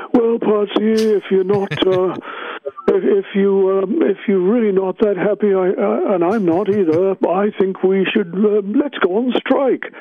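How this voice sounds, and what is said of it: Imitates another person's voice. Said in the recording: “my Dave impression”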